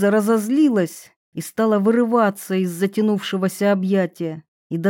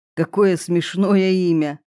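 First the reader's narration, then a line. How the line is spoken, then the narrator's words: Rude smirking remark. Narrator (Russian): усмехнулся и грубо заметил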